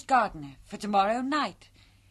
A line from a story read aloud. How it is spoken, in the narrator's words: cried Meg